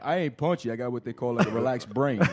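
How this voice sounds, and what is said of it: Imitates another person's voice. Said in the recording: “That's uncanny, that imitation.”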